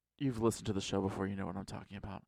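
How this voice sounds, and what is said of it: Sexy voice. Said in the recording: “When did I get this sexy voice? ... you're really into it.”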